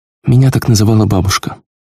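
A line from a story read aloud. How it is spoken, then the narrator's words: Sigh. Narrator (Russian): вздохнула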